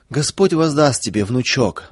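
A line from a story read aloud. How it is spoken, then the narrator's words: Sobbing old woman. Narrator (Russian): всхлипывала бабушка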